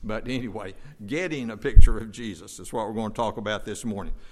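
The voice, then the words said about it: North Carolina twang accent. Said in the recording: “That's my North Carolina twang”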